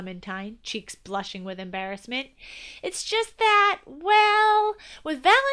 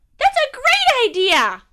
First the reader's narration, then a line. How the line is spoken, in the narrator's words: Clementine shouted